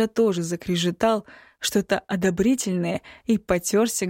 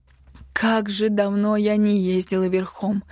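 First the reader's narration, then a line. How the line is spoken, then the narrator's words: Nostalgic near-moan. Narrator (Russian): Едва не застонала от непередаваемого ностальгического ощущения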